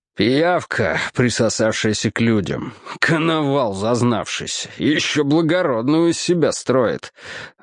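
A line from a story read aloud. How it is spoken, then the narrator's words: Grumbling under breath. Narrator (Russian): ворчал под нос Бьюкерил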